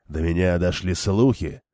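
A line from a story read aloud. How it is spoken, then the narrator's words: Gloomy reply. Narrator (Russian): мрачно ответил Гамайзен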